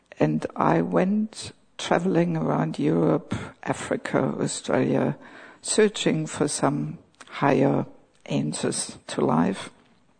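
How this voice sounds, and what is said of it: Accent with slight Australian tinge. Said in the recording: “my accent has a bit of a tinge of Aussie accent”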